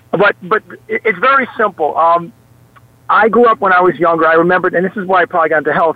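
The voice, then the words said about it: Moderate New York accent. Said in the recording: “I have a New York accent... it's not as thick as Tony Danza”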